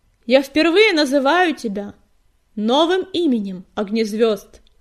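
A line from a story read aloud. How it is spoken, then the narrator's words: Loud proclamation. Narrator (Russian): громко провозгласила синяя звезда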